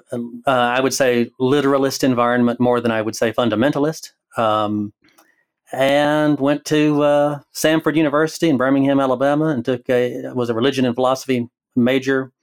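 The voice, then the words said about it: Southern Alabama accent. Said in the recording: “I am from Alabama. So the accent, that's what you're hearing. And I don't think you can, probably can't take that out.”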